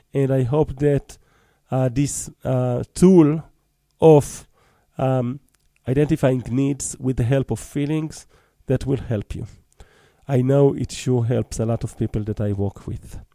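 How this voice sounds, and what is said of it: Choppy voice, recovering from cold. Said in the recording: “My voice is a little bit choppy today. I'm recovering from being a little bit cold”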